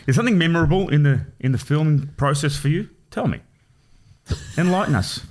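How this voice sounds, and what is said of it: Formal radio presenter voice. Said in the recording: “You turn into fucking Peter Hitchener when you're on a podcast, man ... I've got a radio voice.”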